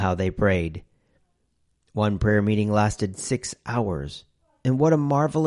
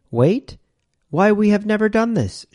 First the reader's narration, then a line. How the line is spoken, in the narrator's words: cried